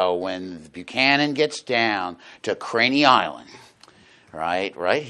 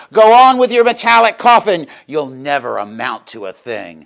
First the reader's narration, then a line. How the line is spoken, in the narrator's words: one person, according to this midshipman Hardin Littlepage, shouted from the shore